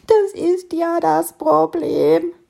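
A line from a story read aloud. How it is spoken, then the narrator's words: Sobbing beetle. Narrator (German): schluchzte der Käfer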